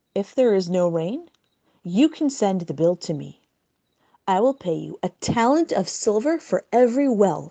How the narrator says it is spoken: said Nakdimon

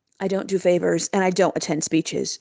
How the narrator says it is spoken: said Yankel coldly

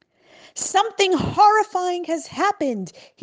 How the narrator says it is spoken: screamed

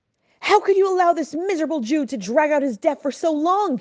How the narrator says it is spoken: he yelled

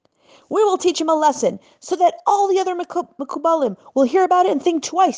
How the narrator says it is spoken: screamed one of their leaders

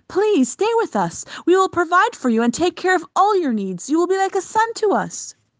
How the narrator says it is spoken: pleaded

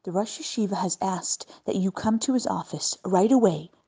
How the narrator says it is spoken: whispered urgently

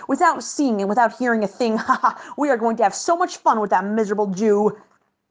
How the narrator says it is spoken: pirates barked

